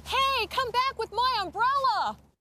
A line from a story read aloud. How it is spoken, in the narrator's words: She was yelling